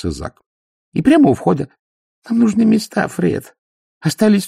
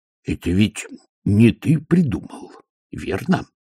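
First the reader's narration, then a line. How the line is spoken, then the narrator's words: Menacing question. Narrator (Russian): грозно спросил Фред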